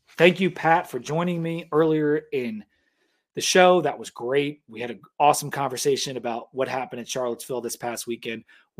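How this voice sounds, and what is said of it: Strained, fading hoarse voice. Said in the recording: “I am losing my voice.”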